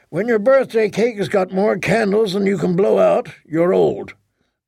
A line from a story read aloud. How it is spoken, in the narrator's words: Leighton said dryly